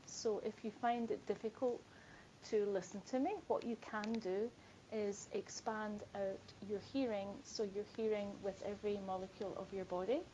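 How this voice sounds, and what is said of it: Scottish accent. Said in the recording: “I'm Scottish, so I do have a different accent.”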